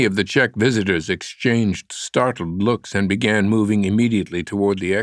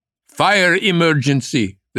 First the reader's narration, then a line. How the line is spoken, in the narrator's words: the same voice shouted